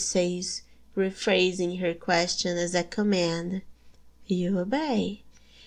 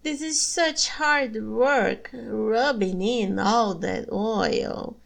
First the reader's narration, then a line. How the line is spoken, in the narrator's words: she whines